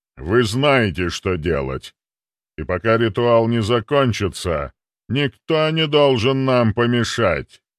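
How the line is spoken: Loud statement. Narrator (Russian): Кузнецов громко произнес

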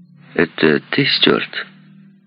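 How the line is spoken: Harsh husky question. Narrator (Russian): спросила своим резким, хрипловатым голосом

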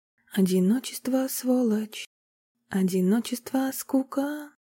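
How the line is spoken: Soft singing. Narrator (Russian): Негромко пропела

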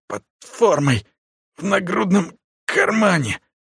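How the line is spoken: Hoarse wheeze. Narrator (Russian): прохрипел тот

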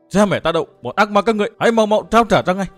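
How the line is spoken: Young man shouting loudly. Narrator (Vietnamese): Chàng thiếu niên coi lại hét lớn

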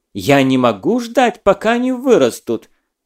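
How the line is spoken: Teacher's snapping retort. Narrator (Russian): огрызнулась учительница

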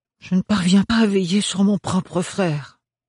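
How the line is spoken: Sigh. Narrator (French): soupira Ophélie

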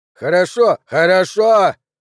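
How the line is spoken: Full-lung yell. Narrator (Russian): Джо заорал на пределе собственных легких

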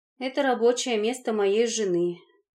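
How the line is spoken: Heavy sigh. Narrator (Russian): тяжело вздохнул дядя Жора

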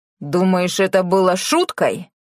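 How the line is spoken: Growl. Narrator (Russian): прорычал Тео

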